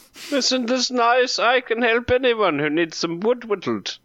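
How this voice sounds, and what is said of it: Character voice with slight accent. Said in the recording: “Just a bit of an accent.”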